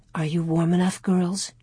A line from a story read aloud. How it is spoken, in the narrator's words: Ma whispered